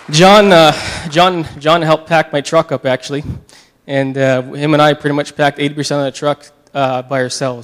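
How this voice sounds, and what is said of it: Tearful, emotional crying voice. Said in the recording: “I'm getting emotional ... I'm crying again”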